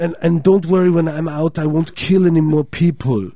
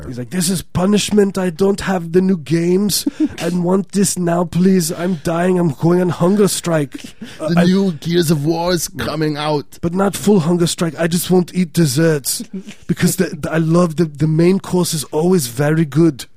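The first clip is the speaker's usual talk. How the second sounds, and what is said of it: Put-on Swedish accent. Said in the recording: “That's my Swedish accent. ... It's perfect.”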